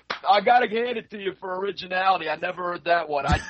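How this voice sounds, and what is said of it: Distinctive regional accent. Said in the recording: “Where's your accent from, man? ... your accent sounds like Raphael of the Ninja Turtles first movie”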